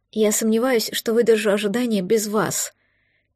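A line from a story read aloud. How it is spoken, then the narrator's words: Quiet confession. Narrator (Russian): тихо призналась она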